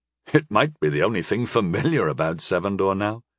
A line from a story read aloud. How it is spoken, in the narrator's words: he chuckled shyly